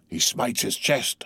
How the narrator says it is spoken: whispered Stubb

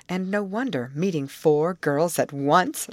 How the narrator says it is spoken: laughed Molly

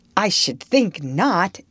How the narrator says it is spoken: exclaimed Diana indignantly

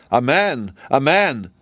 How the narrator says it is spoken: cried she

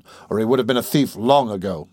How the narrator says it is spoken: muttered the man

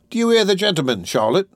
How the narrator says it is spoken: thundered Mr

